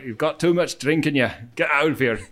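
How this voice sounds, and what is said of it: Put-on Scottish accent. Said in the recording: “the Scottish accent was on the doorman also ... Just keep doing impressions”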